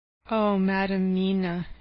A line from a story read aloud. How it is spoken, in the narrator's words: he said sadly